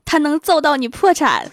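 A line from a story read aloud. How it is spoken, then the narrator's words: Shouting while running. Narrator (Chinese): 那个男的 边跑边喊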